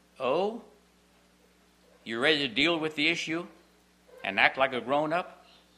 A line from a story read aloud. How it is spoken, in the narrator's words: Randy answered in his usual kind voice